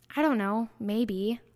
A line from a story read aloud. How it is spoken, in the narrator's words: the doe-eyed boy murmurs